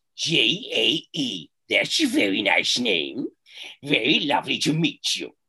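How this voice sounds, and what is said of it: Imitates another person's voice. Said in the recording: “That was Carol Channing. ... That was a great impression.”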